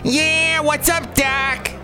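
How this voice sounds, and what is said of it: Cartoon rabbit character voice. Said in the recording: “I can do Bugs Bunny ... that was also very good”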